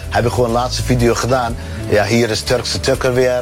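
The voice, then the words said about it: Turkish and Twente accented Dutch. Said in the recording (Dutch): “Mijn accent is eigenlijk Turks en Twents ... Tukker-Turk noemen ze mij”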